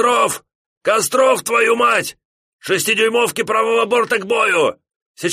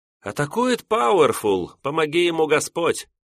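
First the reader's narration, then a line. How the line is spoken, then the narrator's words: Sighing. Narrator (Russian): вздохнул Фелькерзам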